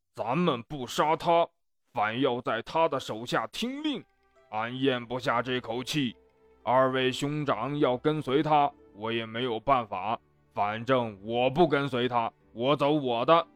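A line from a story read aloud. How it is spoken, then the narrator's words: Angry complaining. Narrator (Chinese): 张飞怒气未消，抱怨道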